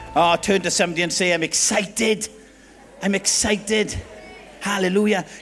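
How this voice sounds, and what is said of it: Welsh Swansea accent. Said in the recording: “Can you all understand my accent? ... the Swansea Jack lingo”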